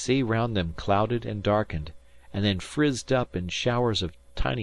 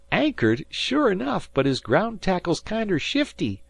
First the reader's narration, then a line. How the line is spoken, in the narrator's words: said Dan, laughing